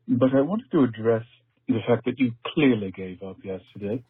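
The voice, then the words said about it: Put-on posh high-class accent. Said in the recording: “This is how you do a proper high-class accent. You can do it with a British annotation or American inflection.”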